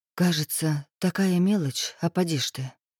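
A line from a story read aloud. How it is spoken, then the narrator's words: Barely audible speech. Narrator (Russian): Едва слышно проговорила Ольга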